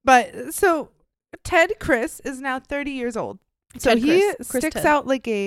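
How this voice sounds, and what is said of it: Usual voice. Nothing is said of it.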